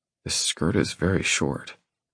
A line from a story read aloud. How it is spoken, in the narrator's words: I murmur